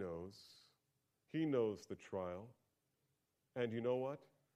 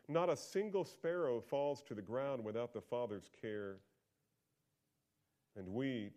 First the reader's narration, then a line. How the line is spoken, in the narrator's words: Jesus says